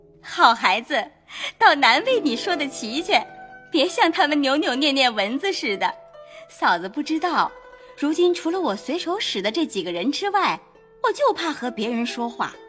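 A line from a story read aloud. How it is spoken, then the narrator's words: Laughing. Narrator (Chinese): 向红玉笑道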